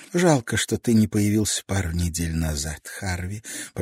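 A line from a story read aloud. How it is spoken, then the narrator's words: Whisper. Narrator (Russian): прошептала она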